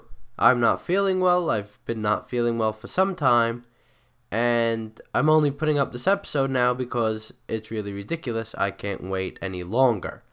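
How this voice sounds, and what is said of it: Hoarse, congested voice. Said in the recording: “apologize for my voice. If I sound a little hoarse, or you can hear my stuffed nose over the recording ... I know I'm not going to be as clear as I usually am”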